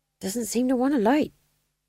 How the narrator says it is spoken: muttered the fool

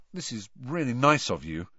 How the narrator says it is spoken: Harry muttered to Mrs

